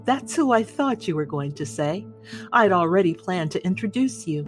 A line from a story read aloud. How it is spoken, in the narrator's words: He laughed and said